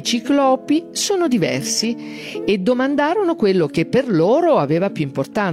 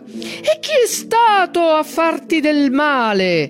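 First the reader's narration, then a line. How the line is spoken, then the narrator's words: Cyclops's ragged, deep roar. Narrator (Italian): Il ciclope la urlò dalle profondità della sua gola devastata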